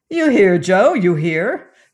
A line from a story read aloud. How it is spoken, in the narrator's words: cried Belvedere